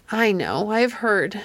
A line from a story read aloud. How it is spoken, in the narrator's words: she faltered